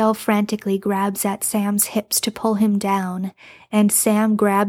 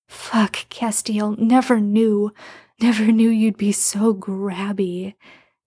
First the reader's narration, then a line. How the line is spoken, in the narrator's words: Sam moans